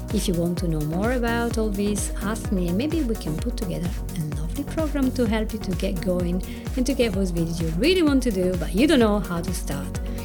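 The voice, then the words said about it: Italian accent, fast speech. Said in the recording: “my Italian accent ... my very fast way of talking today”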